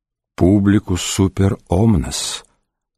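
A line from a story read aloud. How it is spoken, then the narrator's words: Quiet. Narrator (Russian): сказал тихо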